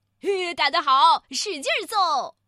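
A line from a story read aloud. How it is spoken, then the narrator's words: Onlookers cheering loudly. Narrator (Chinese): 有些看热闹的大声喝彩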